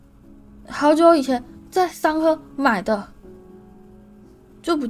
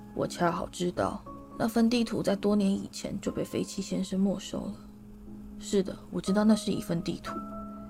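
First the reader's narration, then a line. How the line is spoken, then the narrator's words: Low, hushed voice. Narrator (Chinese): 路平 压低声音说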